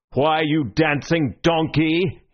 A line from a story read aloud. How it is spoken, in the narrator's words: he roared